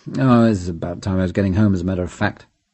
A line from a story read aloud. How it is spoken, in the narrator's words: He said almost sullenly